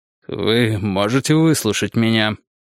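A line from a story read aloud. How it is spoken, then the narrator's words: Muffled question. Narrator (Russian): глухо спросил Перри Мейсон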